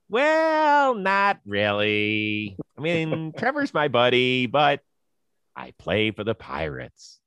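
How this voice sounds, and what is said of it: Imitates another person's voice. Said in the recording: “That was a good Steven impression.”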